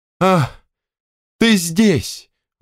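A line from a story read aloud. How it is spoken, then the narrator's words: Sweet exclamation. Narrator (Russian): воскликнул Николай Николаевич сладким голосом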